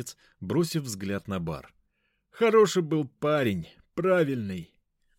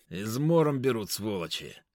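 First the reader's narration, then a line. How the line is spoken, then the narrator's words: Through gritted teeth. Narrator (Russian): сквозь зубы произнес маг времени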